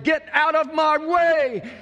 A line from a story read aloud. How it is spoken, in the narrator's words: yelling